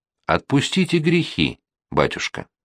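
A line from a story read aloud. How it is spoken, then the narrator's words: Quiet speech. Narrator (Russian): человек тихо проговорил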